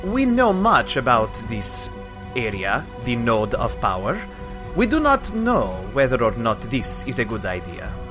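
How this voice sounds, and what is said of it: New character accent. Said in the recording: “Ooh, new accent.”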